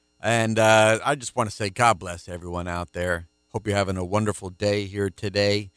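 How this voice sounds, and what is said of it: Deeper baritone early-morning voice. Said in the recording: “my voice is a little deeper here in this first program I record because it's early Saturday morning ... I've got my baritone radio voice”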